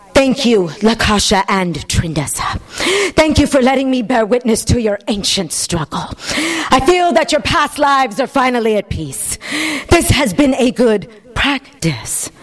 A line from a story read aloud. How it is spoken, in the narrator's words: He said in his original tantra breathy voice